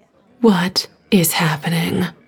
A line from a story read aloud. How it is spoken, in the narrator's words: Stephanie whispered, her face as pale as the screen